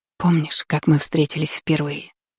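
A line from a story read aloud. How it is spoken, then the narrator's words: Whisper. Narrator (Russian): прошептала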